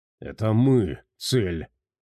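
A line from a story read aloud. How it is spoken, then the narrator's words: Gloomy stallion. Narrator (Russian): мрачно произнес жеребец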